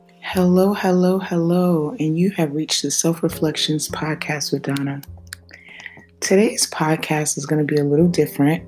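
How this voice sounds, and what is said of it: Hoarse, raspy voice. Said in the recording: “my voice, sounds a little hoarse and raspy ... I haven't really been feeling very well ... sore throats, congestion ... my voice has gotten kind of hoarse”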